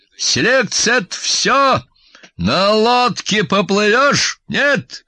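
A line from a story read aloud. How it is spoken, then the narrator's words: Loud bark. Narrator (Russian): громко рявкнул я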